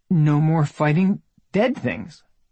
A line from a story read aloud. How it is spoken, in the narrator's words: she said, but her voice wobbled on the last word